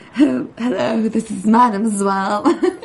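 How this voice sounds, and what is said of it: Snobby put-on French accent. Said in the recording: “Excellent accent you pulled off just now ... She was doing a French accent ... Snobby French accent.”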